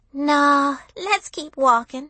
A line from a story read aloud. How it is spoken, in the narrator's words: she sighed